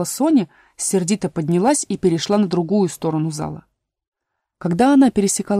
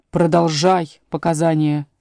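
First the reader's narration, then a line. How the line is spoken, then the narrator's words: Angry. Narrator (Russian): сердито повторил король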